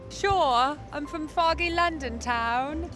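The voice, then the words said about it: Put-on British accent. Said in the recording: “Can you give us your best British accent?”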